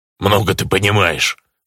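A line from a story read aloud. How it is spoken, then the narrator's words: Offended grumble. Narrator (Russian): буркнул обиженный орк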